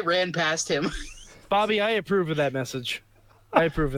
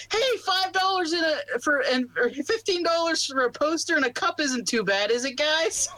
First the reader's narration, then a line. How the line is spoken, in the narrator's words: I was running past and I yelled